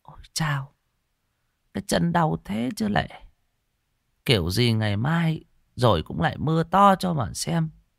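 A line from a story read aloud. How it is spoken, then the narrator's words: Old woman muttering. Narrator (Vietnamese): Bà miệng lẩm bẩm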